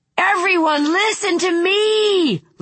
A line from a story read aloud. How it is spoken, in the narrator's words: Lou screamed